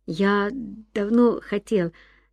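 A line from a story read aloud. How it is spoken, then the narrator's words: Stammering. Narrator (Russian): запинаясь, проговорил Ян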